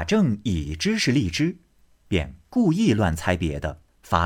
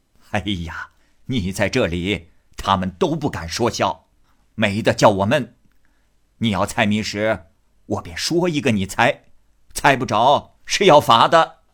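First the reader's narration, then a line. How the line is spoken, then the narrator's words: Laughing. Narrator (Chinese): 贾母笑道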